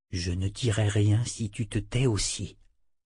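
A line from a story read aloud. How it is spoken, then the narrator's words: Young man murmuring. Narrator (French): murmura le jeune homme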